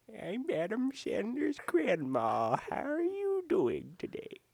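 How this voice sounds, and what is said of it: Little old grandma voice. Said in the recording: “I'm Adam Sandler as an old grandma ... doing this little voice”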